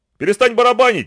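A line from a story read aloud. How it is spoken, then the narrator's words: Shouting. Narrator (Russian): закричал он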